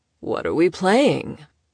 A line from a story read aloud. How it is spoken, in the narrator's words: Oscar drawled, and several people flinched at his gravelly voice